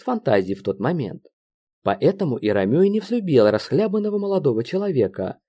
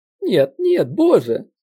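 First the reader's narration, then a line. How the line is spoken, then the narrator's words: Sobbing. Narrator (Russian): всхлипнул я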